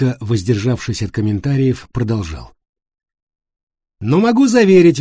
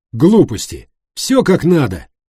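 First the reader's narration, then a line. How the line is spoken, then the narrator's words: Exclamation. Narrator (Russian): воскликнул Давид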